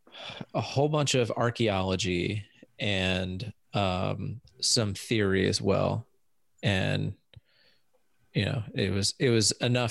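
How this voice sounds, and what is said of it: American English accent. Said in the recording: “if you can't tell from all of our accents, we're in the United States”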